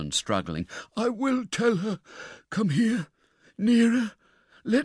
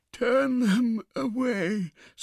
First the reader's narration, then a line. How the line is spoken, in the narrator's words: said the old woman drowsily